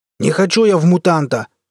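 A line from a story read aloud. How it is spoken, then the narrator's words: Roared. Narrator (Russian): взревел Хренов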